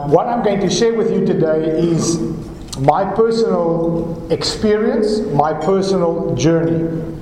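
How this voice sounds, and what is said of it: Different accent, fast speech. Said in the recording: “my accent is different, and sometimes I speak fast or faster than I'm supposed to speak”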